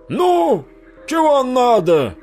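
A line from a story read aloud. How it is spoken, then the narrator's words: Old man shouting. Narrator (Russian): крикнул дед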